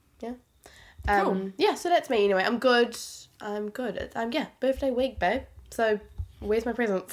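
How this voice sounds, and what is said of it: Congested voice with a cold. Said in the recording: “I have a cold, so if I sound a little bit, you know, shit, it's because I've got a cold.”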